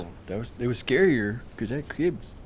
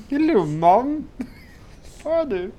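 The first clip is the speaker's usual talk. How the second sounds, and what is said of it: Put-on British accent. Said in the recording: “that British accent”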